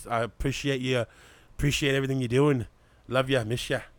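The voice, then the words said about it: Weak put-on Irish accent. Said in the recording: “Did you try to go into an Irish accent? ... A little bit.”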